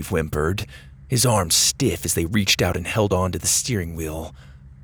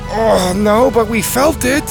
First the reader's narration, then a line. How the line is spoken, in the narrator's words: Mac groaned from the back